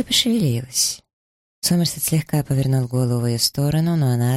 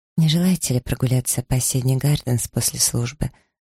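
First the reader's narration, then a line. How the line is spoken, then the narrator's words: Whisper in ear. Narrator (Russian): прошептала Элизе на ухо леди Хёрли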